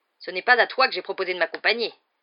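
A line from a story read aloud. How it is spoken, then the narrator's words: Uncle growling. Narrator (French): gronda l'oncle Vernon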